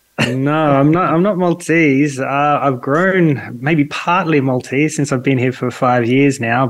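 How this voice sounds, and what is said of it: Australian accent. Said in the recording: “Are you Maltese? I don't think you are with that accent. ... in Sydney, my hometown”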